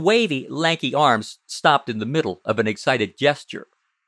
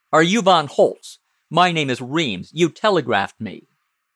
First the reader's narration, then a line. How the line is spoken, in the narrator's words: Tommy said irritably